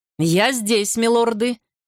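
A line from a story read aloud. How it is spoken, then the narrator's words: Ringing voice. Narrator (Russian): звенящим голосом откликнулся Гарри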